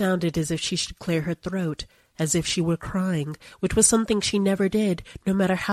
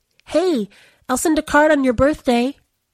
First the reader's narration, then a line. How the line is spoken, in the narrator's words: Anita yelled after her, because she couldn't think of what else to say